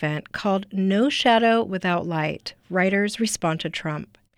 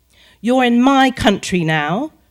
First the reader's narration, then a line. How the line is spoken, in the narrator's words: British woman snapped